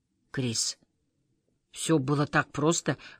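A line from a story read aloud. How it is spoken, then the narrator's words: Hoarse, apologetic voice. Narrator (Russian): хриплым, словно извиняющимся голосом произносит Понди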